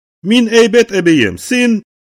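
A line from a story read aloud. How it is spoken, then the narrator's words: Loud, very calm answer. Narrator (Russian): ответила Дилька громко и очень спокойно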